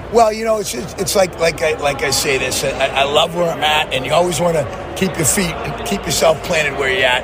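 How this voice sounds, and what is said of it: Boston New England accent. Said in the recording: “Those Boston guys, they don't lose that New England accent.”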